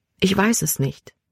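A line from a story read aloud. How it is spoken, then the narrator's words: Quiet. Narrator (German): sagte sie leise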